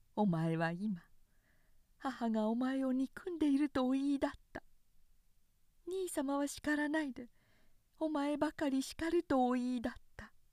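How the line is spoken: Low voice. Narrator (Japanese): 稲はやがて低い声で言い出した

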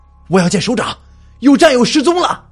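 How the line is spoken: Shout. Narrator (Chinese): 喊道

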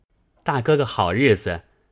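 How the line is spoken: Laughing. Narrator (Chinese): 宝玉没甚说的，便向宝钗笑道

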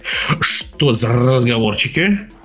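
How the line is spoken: Grumbling. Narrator (Russian): проворчал Максимилиан

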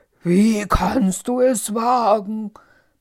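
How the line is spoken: Angry roaring beast. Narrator (German): brüllte das Biest wütend

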